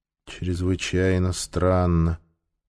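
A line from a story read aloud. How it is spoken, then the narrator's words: Gloomy agreement. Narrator (Russian): мрачно согласилась Ментака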